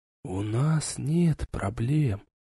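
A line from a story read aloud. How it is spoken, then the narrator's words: Lover whispering in ear. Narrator (Russian): зашептал на ухо любовник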